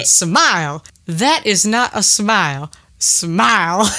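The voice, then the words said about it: Imitates another person's voice. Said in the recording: “your impression”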